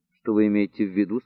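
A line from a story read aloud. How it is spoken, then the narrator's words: Plain. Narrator (Russian): спросил он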